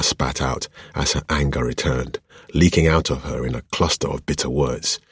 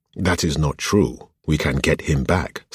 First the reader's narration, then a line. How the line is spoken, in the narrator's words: Samael said